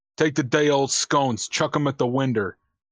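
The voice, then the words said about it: Failed attempt at a Boston accent. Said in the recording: “No, that's not Boston. Winder. I don't know what that accent is.”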